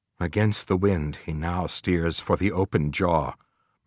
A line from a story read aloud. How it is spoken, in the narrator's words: murmured Starbuck to himself